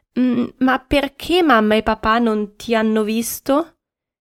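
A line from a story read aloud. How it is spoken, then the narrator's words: Trembling stammer. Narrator (Italian): Daniele, tutto tremante, balbettò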